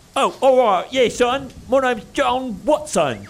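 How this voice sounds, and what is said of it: Hip old-timey British accent. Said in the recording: “Can we get a hipper British accent? ... Like still old timey British accent, but a little more hip.”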